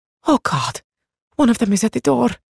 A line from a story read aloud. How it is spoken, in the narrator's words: whispered